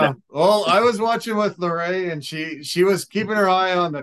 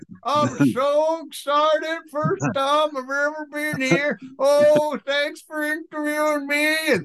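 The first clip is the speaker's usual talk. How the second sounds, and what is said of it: Imitated southern Alabama accent. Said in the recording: “He had such a southern accent, Alabama boy.”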